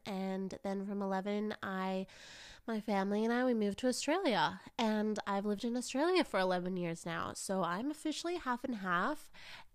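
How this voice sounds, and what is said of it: Mixed Canadian-Australian accent. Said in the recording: “I am recovering from a cold, but I might also sound funny because I was born in Canada ... my accent is also very confused ... I'm Canadian to my core ... she tried to be a bit more Aussie ... a very mishmash accent”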